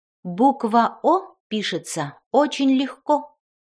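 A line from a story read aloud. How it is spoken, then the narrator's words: Plain. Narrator (Russian): сказала фея О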